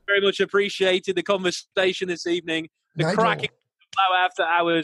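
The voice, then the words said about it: British accent with slight Scottish. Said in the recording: “this terrible accent ... It's not terrible. It's actually right. It's on point ... a bit of Scottish there as well ... not like overly Scottish. It's just like the perfect amount ... a keen accent there. It's more of like Gaelic than anything.”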